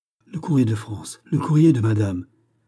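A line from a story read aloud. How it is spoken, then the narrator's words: Excited recognition. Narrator (French): s'écria, reconnaissant la livrée de la duchesse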